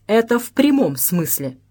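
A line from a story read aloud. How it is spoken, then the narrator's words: Dry but polite. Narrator (Russian): сухо, но вежливо проговорил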